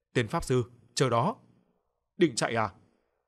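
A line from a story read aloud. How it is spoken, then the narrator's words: Shouting. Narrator (Vietnamese): nó hét lên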